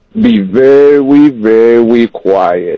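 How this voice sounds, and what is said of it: Elmer Fudd impression. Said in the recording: “your best Elmer Fudd impression ... you're supposed to whisper”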